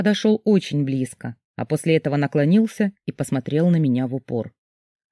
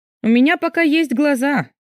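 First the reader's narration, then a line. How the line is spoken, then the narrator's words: Wary snort. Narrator (Russian): фыркнула я, с опаской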